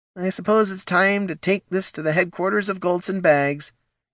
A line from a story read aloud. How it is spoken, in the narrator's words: he said with a sigh